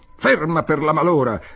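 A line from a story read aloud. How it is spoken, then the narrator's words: Shouted. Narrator (Italian): gridò Giletti al vetturino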